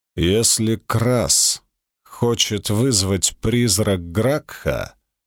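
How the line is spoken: Spoken gloomily. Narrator (Russian): мрачно проговорил Цицерон

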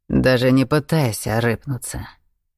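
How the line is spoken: Bald man's deep regal bass. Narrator (Russian): заговорил лысый царским басом

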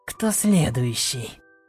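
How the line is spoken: Furious growl. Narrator (Russian): яростно зарычала

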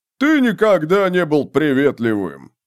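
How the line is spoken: Soldier's deep bass voice. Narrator (Russian): пробасил коренастый круглолицый солдат

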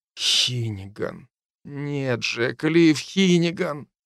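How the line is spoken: Whisper. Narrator (Russian): прошептал я

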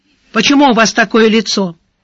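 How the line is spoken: Sharp question. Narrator (Russian): резко спросил Сварог

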